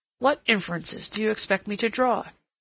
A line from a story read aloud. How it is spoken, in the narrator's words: he said sharply